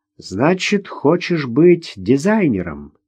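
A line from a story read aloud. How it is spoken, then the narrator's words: Thoughtful drawl. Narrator (Russian): задумчиво протянул Гоша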